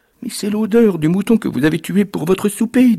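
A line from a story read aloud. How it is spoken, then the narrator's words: Trembling woman's voice. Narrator (French): dit la femme d'une voix tremblante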